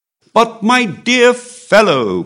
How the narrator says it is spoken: cried the Comte

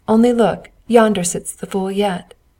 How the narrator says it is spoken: They laughed as they passed and said

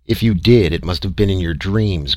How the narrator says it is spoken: growled Harrison

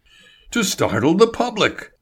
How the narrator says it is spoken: Label cried

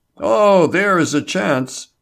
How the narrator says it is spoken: Label exclaimed

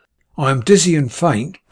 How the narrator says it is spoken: Beorn replied unsteadily

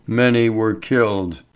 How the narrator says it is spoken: the newcomer said in the same wooden voice

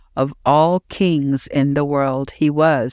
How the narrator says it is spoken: said his men

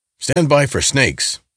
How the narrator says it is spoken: shouted Reuben

